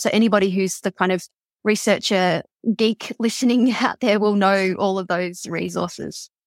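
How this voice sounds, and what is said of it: Australian accent. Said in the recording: “if you like listening to an Aussie accent, you can listen to me”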